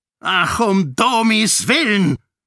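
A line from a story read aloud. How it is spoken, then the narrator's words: Bellowing. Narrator (German): brüllte Iadon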